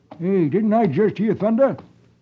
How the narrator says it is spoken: California, some distance away, suddenly slows his horse and exclaims

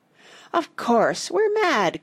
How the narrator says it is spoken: cried Joe

